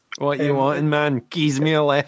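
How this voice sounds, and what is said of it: Thick Glaswegian accent. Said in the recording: “in a really thick Glaswegian accent”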